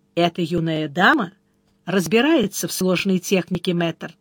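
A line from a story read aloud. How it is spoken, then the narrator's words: Quiet. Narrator (Russian): Тот тихонько сказал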